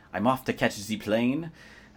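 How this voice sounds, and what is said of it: Attempted German accent, sounding French. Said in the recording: “she did quote the accent, as writers tend to do ... Helga Masthoff from Germany ... I guess that's more French than German, but I'm not known for my accent.”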